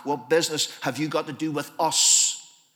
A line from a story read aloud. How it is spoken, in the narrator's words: the voice says